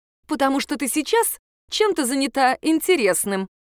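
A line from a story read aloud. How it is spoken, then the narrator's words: Laughing. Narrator (Russian): она рассмеялась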